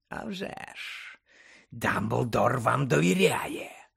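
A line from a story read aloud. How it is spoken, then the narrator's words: Growling. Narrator (Ukrainian): прогарчав у відповідь Муді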